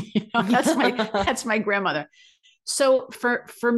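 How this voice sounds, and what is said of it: Usual voice. Nothing is said of it.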